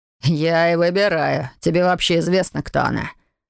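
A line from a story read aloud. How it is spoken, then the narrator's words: Mocking reply. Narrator (Russian): насмешливо отозвался незваный гость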